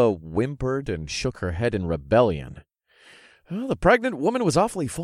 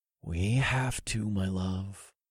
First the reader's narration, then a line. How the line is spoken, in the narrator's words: I said in the most soothing voice I could muster, after the carnage I'd seen the Lizjaga were capable of